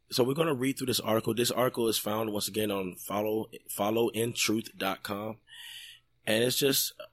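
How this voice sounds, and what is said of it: Rough, sore-throated voice. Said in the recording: “I hope that my throat is not distracting anybody as far as how my voice sounds this week. Son's been sick, and it's kind of been going around”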